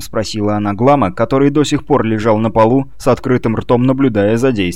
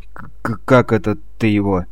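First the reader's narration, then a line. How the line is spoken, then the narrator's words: Forced out with difficulty. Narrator (Russian): только и сумел выдавить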